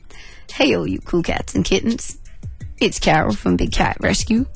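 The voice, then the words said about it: Carole Baskin impression. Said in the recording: “your Carol Baskin impression ... That's pretty good ... You've actually improved on that ... That's getting better and better”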